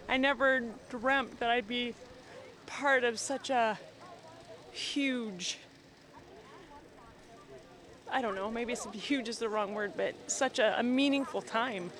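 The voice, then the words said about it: Choked-up, emotional voice. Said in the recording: “getting choked up”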